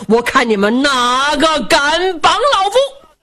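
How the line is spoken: Furious shouting. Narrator (Chinese): 武建章一听暴跳如雷，高声喊嚷

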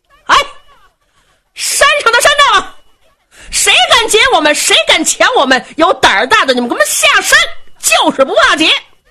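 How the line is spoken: Soldiers shouting at full voice. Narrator (Chinese): 罗成一回头喊，这些当兵的扯着嗓子喊呐

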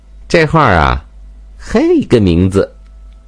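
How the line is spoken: Laughing, candid. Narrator (Chinese): 阿香才笑着说了实话

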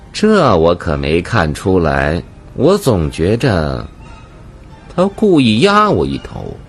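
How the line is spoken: Faint smile. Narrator (Chinese): 汪满春淡淡一笑

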